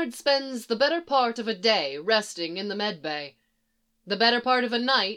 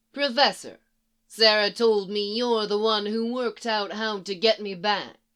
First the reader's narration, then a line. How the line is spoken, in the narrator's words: says